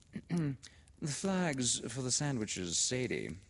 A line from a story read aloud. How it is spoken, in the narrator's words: echoed Miss Sheridan dreamily